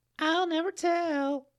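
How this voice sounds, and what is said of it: Falsetto voice. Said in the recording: “a land in falsetto voice”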